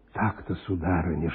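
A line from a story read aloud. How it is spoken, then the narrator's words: Whispered. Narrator (Russian): шептал он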